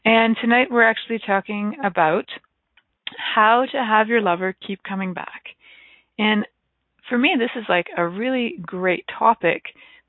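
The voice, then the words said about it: Slightly hoarse, croaky voice. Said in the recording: “I've got a little frog in my throat.”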